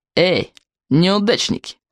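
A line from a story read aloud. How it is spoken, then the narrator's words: Snide call. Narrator (Russian): ехидно окликнул Сморкала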